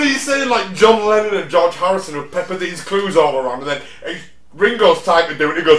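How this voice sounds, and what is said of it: Usual voice. Nothing is said of it.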